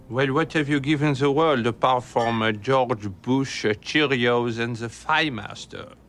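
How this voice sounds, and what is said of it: French accent. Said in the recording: “I think what you are hearing is my accent. I am French.”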